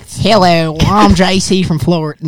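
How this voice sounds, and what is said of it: Failed Florida accent, sounds Australian. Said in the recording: “Florida accent. ... that's that's that's, an alligator. Yeah, it's not gonna work. Yeah, that's an crocodile Dundee.”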